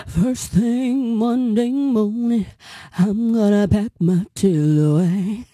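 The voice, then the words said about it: Imitates a singer's voice. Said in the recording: “my impersonation”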